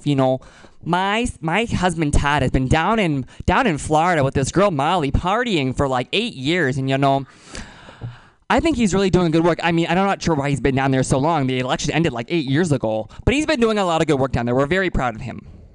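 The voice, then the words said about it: Imitates another person's voice. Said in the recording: “my Sarah Palin impersonation”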